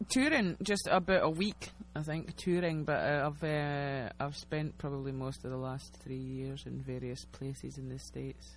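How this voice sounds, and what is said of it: Scottish accent. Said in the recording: “Typical Midwestern accent here. Midwestern via a small town in Scotland, basically.”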